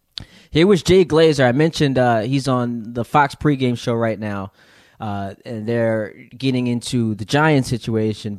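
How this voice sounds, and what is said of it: Strained, fading voice. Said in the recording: “losing my voice”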